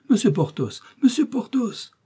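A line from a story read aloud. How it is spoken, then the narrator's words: Woman crying out. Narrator (French): s'écria la procureuse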